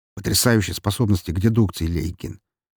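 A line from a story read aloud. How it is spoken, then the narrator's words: Angry irritated snap. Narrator (Russian): зло огрызнулся Сергей, совсем не желая сейчас выслушивать тупые шутки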